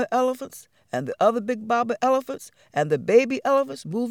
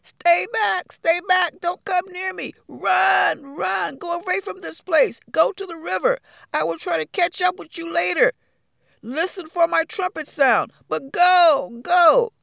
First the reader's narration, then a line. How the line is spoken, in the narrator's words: he shouted at them